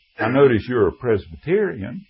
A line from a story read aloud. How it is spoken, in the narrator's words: when I laughed, I looked at him and said